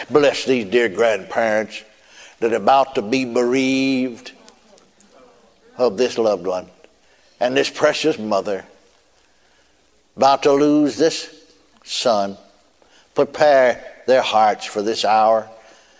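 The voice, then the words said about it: Imitates a preacher's professional praying voice. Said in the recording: “put on that professional voice”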